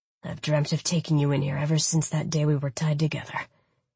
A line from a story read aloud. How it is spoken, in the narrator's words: he muttered against my ear